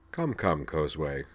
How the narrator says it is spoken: he chided her gently

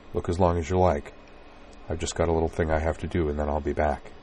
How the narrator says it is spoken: said softly

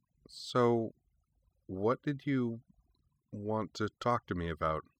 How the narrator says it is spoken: Neo replied, and then, a little hesitantly

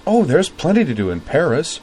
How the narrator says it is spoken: said Azeline brightly from across the table

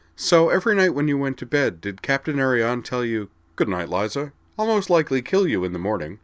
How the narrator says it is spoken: laughed

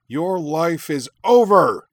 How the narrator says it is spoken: Shuten roared

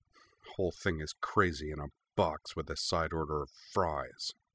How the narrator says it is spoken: she could be heard muttering under her breath

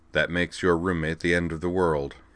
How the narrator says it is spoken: said dryly

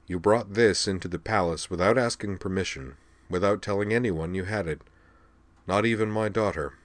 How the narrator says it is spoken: said Deslok evenly

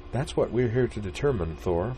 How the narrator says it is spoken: the blonde woman chided gently

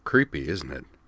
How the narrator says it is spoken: Wakaba murmured

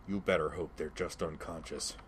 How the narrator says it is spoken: he said through gritted teeth

